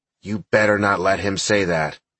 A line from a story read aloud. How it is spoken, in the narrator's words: through clenched teeth, she said